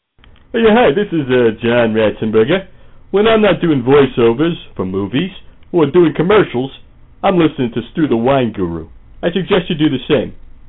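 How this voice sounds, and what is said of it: Impression of John Ratzenberger. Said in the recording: “No actual celebrities were used in the making of this promo, only celebrity impersonators.”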